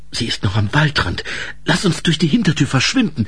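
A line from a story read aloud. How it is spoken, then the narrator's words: Whispering. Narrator (German): flüsterte Ensel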